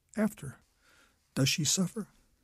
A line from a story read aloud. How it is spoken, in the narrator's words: She cries